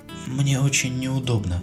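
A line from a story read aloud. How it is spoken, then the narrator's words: Quiet. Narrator (Russian): тихо продолжила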